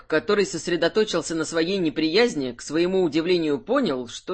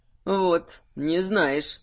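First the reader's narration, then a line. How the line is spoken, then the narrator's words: Pleased drawl. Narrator (Russian): с удовольствием протянул Айрунг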